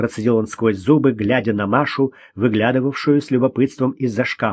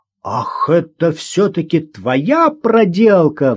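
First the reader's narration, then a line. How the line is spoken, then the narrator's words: Roaring. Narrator (Russian): взревел Гоша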